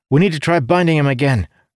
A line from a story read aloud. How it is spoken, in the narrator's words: Dougal cried ... frantic